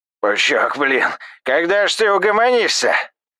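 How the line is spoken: Frightened old man yelling. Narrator (Russian): Завопил бледный, как полотно, дед

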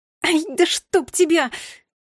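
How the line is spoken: Hurt, angry shout. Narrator (Russian): закричала я от обиды

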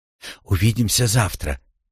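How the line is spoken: Quiet. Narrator (Russian): тихо сказала Рошель

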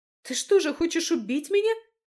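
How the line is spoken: Shouted out. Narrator (Russian): выкрикнула Августа

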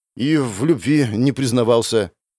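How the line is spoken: Dejected voice. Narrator (Russian): сказал я упавшим голосом

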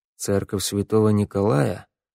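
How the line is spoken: Muttered. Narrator (Russian): пробормотал Вик

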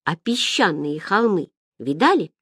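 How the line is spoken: Plain question. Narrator (Russian): спросил Ян

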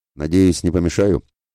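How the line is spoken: Casual, smug snort. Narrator (Russian): хмыкнул он вальяжно

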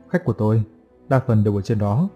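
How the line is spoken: Sarcastic. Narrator (Vietnamese): Vân mỉa mai

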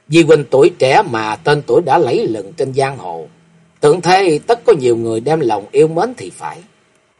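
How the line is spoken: Smiling voice. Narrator (Vietnamese): Kim Tuyết Ngân mỉm cười nói

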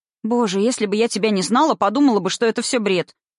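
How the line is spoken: Rapid chatter. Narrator (Russian): протараторила Алька

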